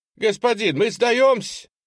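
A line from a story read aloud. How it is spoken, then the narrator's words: Shouted. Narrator (Russian): выкрикнул первый из миллицких дезертиров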